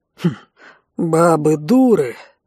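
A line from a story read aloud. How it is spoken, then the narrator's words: Scoffing snort. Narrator (Russian): хмыкнул Рэй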